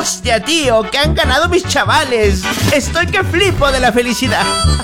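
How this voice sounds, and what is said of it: Put-on Spanish (Spain) accent. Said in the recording (Spanish): “Hasta se me está pegando el acento español.”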